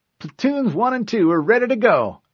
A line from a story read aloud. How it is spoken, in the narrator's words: Oros reported cheerfully